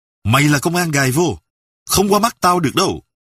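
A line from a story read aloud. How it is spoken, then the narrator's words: Sudden sharp shout. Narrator (Vietnamese): Bất thần, Sâm quát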